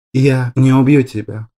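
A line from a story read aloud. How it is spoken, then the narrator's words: Sigh. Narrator (Russian): Вздохнул Гориор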